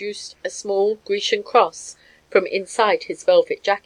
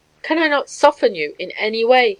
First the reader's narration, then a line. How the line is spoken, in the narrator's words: he cried